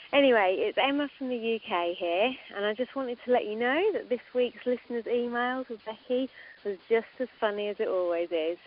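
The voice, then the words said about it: English accent. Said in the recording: “a girl with an English accent”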